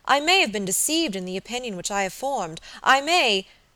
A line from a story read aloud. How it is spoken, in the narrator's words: she exclaimed